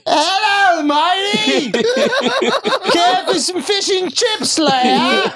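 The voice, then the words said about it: Put-on British accent. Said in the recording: “You hit on a girl in the UK accent? ... What's a UK cat call sound like?”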